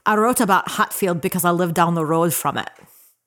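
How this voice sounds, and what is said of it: Put-on Scottish accent. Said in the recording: “does a mean Scottish accent ... Very good. That's very fun.”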